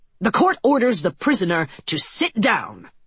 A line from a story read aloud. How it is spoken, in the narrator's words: Judge Hunt snapped